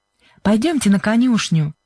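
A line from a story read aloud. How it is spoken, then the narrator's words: Cheerful. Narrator (Russian): весело сказала Сьюзен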